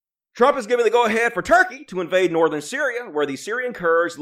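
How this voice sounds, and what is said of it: Usual voice. Nothing is said of it.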